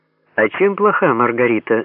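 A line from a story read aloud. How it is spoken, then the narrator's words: Timid question. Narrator (Russian): робко поинтересовался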